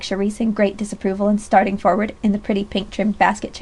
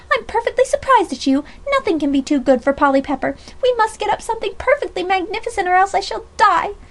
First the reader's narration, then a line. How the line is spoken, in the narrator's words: cried tragically